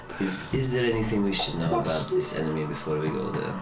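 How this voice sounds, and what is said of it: Put-on French accent. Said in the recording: “Time to get into my French accent ... It'll be more French.”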